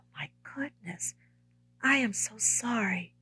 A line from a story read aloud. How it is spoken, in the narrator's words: He sympathetically whispered